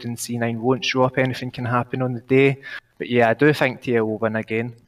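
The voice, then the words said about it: Distinctive accent. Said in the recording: “man, this accent is so fucking great ... in that accent”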